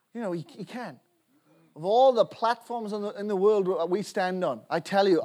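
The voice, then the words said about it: Welsh accent. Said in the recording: “Where's your accent from? ... Wales”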